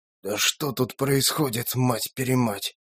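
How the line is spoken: Grumbling mutter. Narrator (Russian): буркнул Юрий

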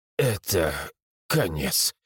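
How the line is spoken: Quiet, to himself. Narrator (Russian): тихо выдал сам себе

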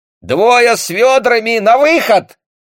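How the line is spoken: Cocky young shout. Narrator (Russian): с петушиным задором выкрикнул молодой голос

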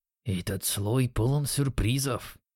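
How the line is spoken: Muttering. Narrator (Russian): пробормотал Юки

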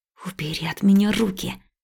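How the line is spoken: Hissed. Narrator (Russian): прошипела я

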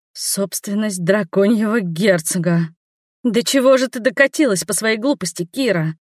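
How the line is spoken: Despairing groan. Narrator (Russian): я застонала, понимая, что попала в безвыходную ситуацию

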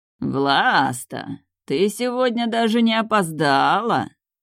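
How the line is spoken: Mocking drawl, dragon. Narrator (Russian): протянул дракон насмешливо

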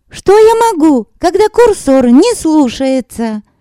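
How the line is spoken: Shout. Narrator (Russian): закричала Танька

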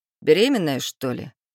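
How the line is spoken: Snort. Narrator (Russian): Хмыкнул сын

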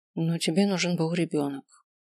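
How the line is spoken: Dejected voice. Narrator (Russian): отзываюсь я упавшим голосом

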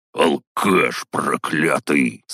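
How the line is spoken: Hateful growl, loud bark. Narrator (Russian): С ненавистью прорычал он и гаркнул так, что все тут же повернулись в нашу сторону

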